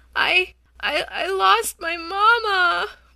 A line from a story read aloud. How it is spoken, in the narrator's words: wailed the baby